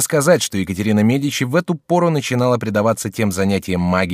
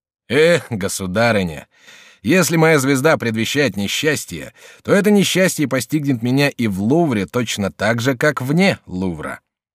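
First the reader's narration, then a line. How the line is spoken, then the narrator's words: Laughing, unconcerned reply. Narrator (Russian): Генрих II вовсе не верил звездам, и потому, смеясь, отвечал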